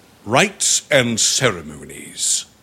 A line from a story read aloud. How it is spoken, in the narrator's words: continued the other, his voice booming with a singular enthusiasm